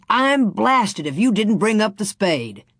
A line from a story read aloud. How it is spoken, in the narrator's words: Scott slapped his thigh and shouted